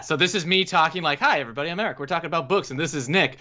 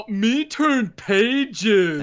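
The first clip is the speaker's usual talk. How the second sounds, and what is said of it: Imitates another person's voice. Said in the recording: “does the Nick voice ... you do a very good job. You do a really good job, actually.”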